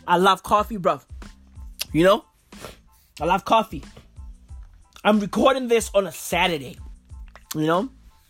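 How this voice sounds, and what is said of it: Slightly blocked-up, congested voice. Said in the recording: “I'm still a bit blocked up. My sinuses are still acting up... you guys can hear that my voice is, you know, is just like, it's just clearing up a little bit... my throat is clearing up as well”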